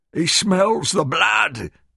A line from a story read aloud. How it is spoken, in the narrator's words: Ernie cried